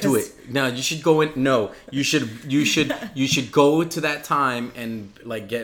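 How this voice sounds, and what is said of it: Usual voice. Nothing is said of it.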